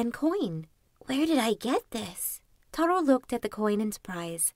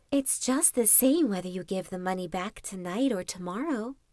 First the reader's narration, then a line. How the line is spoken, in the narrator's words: whispered the voice again